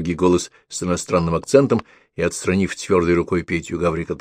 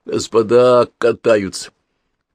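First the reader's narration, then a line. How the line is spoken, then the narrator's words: Through gritted teeth. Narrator (Russian): Гаврик со странной улыбкой процедил сквозь зубы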